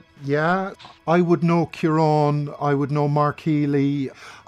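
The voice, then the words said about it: Irish Cork accent. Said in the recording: “That's a Cork accent, isn't it?”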